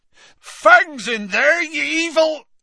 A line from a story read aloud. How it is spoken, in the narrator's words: Hagrid bellowed